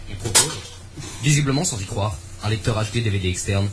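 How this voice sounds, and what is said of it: Arte documentary narrator voice. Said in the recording (French): “je vais faire ton documentaire Arte”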